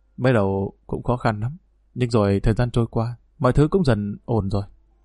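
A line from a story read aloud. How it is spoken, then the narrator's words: Soft smiling reply. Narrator (Vietnamese): Anh khẽ mỉm cười đáp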